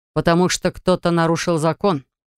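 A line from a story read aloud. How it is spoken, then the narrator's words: Growled. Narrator (Russian): рыкнул мужчина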